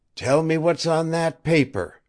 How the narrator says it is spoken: Webster said hoarsely

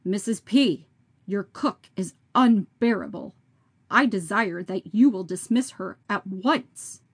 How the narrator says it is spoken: saying sternly

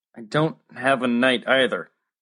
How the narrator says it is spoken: Max said miserably

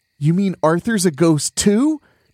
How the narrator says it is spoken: Chunker cried in disbelief

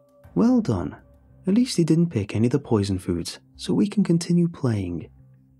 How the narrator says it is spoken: he said cheerfully, but I could hear the disappointment

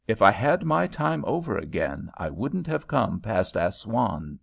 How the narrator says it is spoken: said she

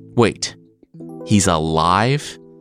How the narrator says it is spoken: Eddard sputtered

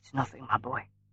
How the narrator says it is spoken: she whispered

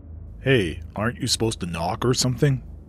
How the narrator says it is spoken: Lugi growled

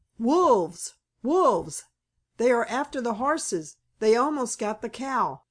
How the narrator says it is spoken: shouted Lige

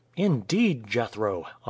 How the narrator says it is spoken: Amuba exclaimed with enthusiasm

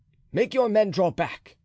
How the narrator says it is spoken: cried D'Artagnan to Porthos and Aramis

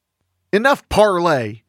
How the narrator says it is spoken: shouted Calamity Jane

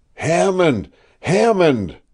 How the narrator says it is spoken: I cried again despairingly

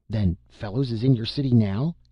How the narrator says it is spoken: asked Hackett eagerly

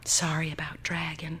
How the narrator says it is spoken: he whispered

